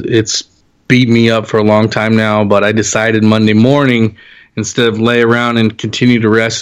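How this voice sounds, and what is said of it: Scratchy voice. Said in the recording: “my voice is still a little scratchy... head and chest cold”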